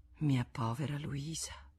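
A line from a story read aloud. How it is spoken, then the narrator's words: Sighing. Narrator (Italian): con un sospiro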